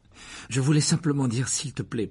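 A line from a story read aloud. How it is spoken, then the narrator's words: Hurried. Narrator (French): précisa Harry d'un ton précipité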